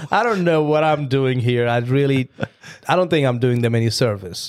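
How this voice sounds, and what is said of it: Hard-to-understand accent. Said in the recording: “the other half can't understand my accent”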